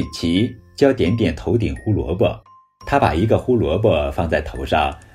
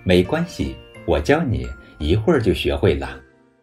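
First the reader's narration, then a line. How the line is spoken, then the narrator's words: Smiling. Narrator (Chinese): 瑞奇笑着说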